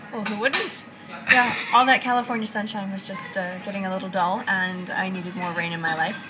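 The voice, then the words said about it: American accent. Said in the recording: “you've got an American accent.”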